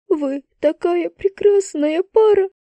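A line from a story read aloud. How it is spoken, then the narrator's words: Sobbing again. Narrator (Russian): Еще раз всхлипнула она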